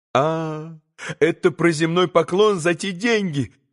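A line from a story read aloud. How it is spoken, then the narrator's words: Bitter laugh. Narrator (Russian): подхватила, горько рассмеявшись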